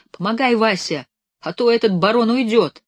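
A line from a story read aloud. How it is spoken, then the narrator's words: Shouting. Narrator (Russian): он уже кричал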